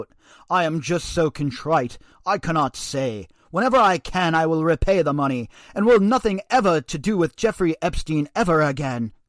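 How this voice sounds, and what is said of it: Poor fake British accent. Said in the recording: “Sorry about my terrible British accent”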